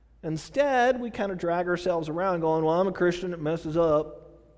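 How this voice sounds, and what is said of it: Brief Southern US accent. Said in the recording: “Sorry, that Southern came out of me, you know. Southern accent there”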